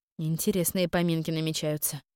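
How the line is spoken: Muttering. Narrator (Russian): пробормотала я

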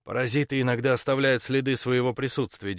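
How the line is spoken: Flat wooden voice. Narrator (Russian): деревянным голосом сказал

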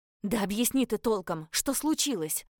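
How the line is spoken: Barking snap. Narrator (Russian): рявкнула

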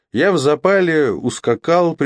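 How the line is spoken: Laughing confession. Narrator (Russian): признался Роджер, тоже рассмеявшись

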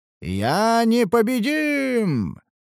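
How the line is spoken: Triumphant roar. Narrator (Russian): проревел Бхарат торжествующе

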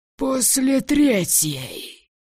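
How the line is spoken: Hoarse, half animal growl. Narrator (Russian): Этот голос был сиплый, наполовину голос, наполовину звериное рычание

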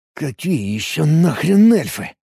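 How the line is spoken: Stunned muttering. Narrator (Russian): ошарашенно пробормотал я

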